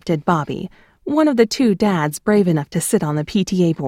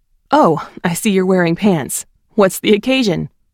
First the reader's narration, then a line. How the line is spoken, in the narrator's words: He then laughed theatrically